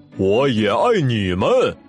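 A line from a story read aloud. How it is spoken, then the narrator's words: Laughing. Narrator (Chinese): 棕熊大叔笑着说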